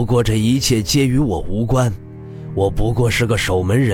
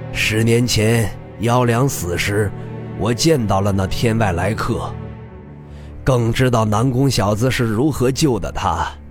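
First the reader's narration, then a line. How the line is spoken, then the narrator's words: Smiling, amused. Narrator (Chinese): 李长风笑眯眯的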